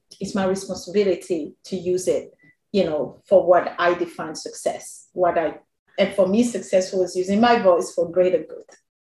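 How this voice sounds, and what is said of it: Speaks with a noticeable accent. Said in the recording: “some of your followers say that they love my accent ... I have a horrible accent ... now today they say I have an accent ... I say differently”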